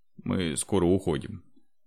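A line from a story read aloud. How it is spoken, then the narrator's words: Calm. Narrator (Russian): спокойно сказал Андрей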